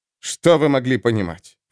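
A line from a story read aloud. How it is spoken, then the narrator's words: Scoffing snort. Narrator (Russian): фыркнул Джейк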